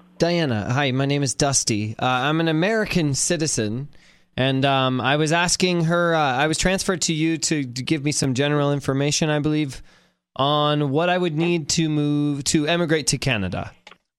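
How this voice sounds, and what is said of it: American affecting slight Canadian accent. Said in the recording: “It sort of sounds like you're affecting an accent there. You say Canada. ... consciously trying to sound a little bit Canadian”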